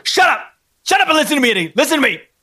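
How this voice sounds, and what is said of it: Angry shouting. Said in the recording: “Why are you yelling at me?”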